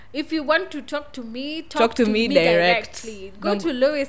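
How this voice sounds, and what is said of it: Put-on German accent. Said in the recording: “Say that in you know the German accent.”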